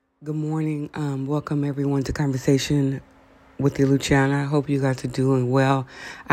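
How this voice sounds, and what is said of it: Voice deeper than usual. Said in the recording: “my voice sounds a little deeper than usual”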